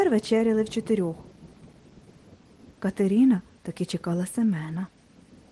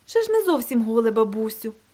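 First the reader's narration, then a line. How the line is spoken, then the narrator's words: Cheerful objection. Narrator (Ukrainian): весело заперечила Катерина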